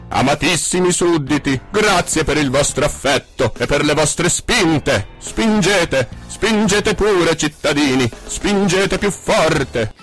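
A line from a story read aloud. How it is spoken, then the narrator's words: Loud shouting. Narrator (Italian): il principe, capita l'antifona, lo coprì, mettendosi a gridare a gran voce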